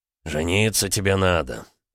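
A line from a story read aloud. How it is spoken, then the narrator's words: Snort. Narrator (Russian): хмыкнул Олег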